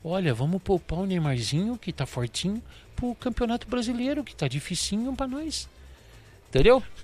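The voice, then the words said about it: Imitates another person's voice. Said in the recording (Portuguese): “perfeita ... Essa imitação.”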